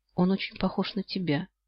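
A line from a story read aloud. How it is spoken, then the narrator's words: Quiet remark. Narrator (Russian): замечаю тихо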